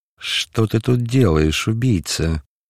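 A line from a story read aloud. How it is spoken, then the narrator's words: Furious hiss. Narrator (Russian): прошипел он яростно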